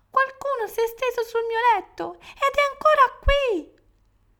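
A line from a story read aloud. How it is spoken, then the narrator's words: Tiny bear's small cry. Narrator (Italian): l'orsetto, piccolo piccolo, gridò con la sua voce piccola piccola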